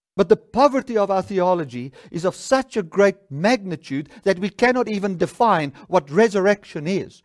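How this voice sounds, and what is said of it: Upset, agitated speaking voice. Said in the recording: “I sound a bit upset”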